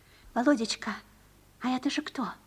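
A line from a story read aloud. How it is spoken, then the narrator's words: Mother's whispered question. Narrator (Russian): спросила шепотом мать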